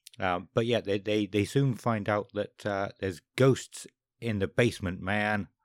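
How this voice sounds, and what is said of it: Imitates another person's voice, badly. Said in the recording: “that was a terrible impression.”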